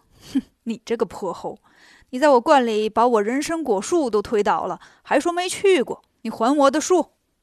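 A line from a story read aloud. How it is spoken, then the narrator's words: Laughing. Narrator (Chinese): 大仙笑着说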